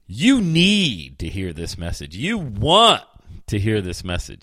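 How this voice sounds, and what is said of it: Jack Nicholson impression. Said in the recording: “in my best Jack Nicholson voice.”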